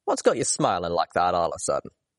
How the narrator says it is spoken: I chuckled at myself

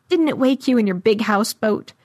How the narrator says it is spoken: It laughed like it knew I'd end up squeezed among the untold deaths in its gut, and asked

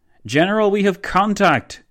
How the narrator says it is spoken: boomed one of von Leto Vorbeck's forward soldiers

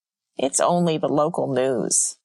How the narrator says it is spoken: Sylvia scoffed

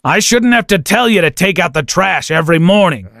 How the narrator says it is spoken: he growled

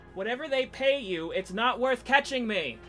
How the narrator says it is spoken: I yelled back over my shoulder

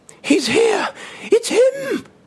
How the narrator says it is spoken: screamed

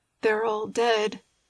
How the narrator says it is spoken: murmuring through his choky sobs

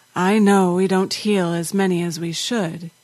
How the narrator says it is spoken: he said in a tired voice

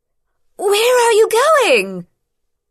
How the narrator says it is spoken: she shouted after Rian, loudly enough to be heard despite the damage to their hearing

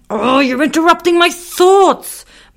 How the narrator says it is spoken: Muffin barked

